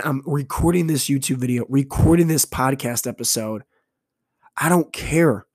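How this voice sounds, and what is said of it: Hoarse, strained voice. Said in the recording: “I'm probably not going to have a voice tomorrow ... losing my voice”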